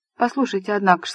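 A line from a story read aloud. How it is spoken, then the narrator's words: Plain. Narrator (Russian): сказал Напье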